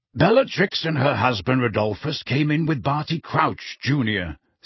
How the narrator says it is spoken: said Sirius in the same brusque voice

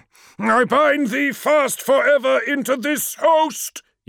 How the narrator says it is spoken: yelled Menkaura

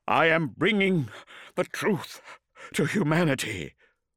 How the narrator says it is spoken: Lorgar breathed

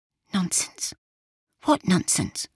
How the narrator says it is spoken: Yorvil said, also whispering

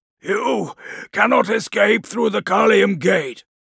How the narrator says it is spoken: Eidolon spat, tasting his own blood

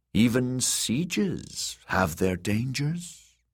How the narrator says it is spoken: she murmured

